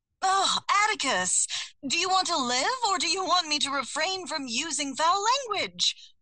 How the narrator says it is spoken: I gasped

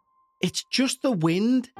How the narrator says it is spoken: said, but his voice wavered

